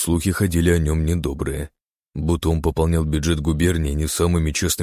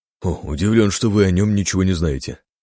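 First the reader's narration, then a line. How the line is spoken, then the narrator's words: Smirking snort. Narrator (Russian): хмыкнул Синицын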